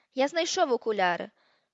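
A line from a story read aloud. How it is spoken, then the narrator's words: Exclamation from behind. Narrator (Ukrainian): вигукнув якийсь хапун, що ховався позаду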